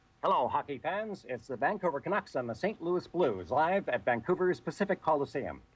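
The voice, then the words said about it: Hockey play-by-play announcer voice. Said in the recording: “I had to cultivate a Jim Robson impersonation ... That was pretty amazing.”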